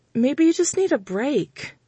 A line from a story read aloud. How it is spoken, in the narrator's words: I suggested, trying to infuse my tone with optimism